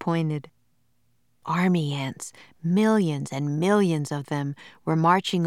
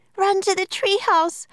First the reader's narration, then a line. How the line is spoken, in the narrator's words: cried Annie